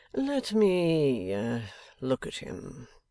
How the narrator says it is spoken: returned Wrayburn coolly

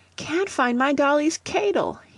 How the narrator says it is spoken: he whined

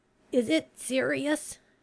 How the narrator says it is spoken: he asked, his voice cracking with the effort

